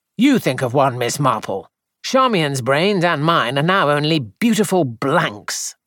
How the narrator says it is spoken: Edward said crossly

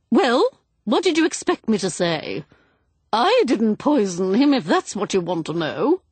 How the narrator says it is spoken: said sharply

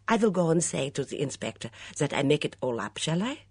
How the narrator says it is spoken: asked Mitzi

